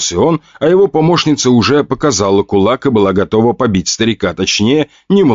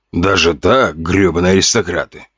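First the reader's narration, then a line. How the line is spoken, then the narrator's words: Groaning. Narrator (Russian): простонал бородатый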